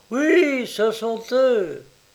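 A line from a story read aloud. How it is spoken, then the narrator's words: Crowd exclaiming. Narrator (French): toute la société s'écria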